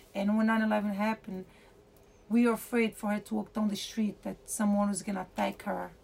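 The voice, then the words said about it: Foreign accent, non-native English speaker. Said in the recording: “me having an accent because I'm not from this country ... people know I'm Arabic”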